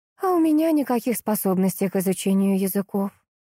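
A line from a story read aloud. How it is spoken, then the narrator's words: Heavy resigned sigh, wife. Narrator (Russian): тяжко вздохнула его жена и признала, смиряясь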